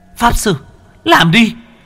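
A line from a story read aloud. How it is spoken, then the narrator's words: Shouting. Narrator (Vietnamese): cô Ly hét lên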